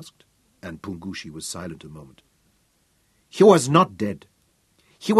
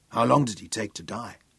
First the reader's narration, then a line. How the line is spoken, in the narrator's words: Mark asked in a choked, angry voice